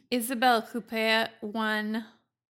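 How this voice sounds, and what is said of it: Put-on French accent. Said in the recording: “That's me doing my French accent.”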